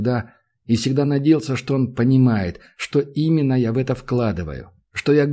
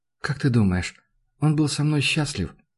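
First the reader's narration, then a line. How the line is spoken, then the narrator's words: Barely audible. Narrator (Russian): Сказал так тихо, что я думал, мне показалось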